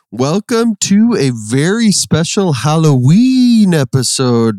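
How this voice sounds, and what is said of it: Spooky Halloween voice. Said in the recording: “That was my spooky voice”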